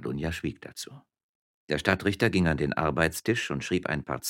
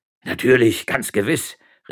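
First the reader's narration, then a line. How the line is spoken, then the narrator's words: Enthusiastic exclamation. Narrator (German): rief Gardunia begeistert aus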